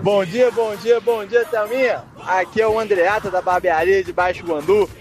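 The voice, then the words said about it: Mineiro Brazilian Portuguese accent. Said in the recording (Portuguese): “você é mineiro? ... Você é mineirinho? ... Tem um sotaquezinho gostoso ... aquele sotaque bom demais”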